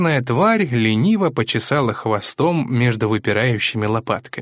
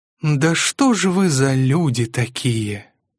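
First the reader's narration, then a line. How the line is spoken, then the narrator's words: Said wearily. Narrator (Russian): устало сказала Андромеда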